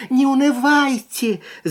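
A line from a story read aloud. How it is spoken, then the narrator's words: Toy clown shouting. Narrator (Russian): закричал игрушечный клоун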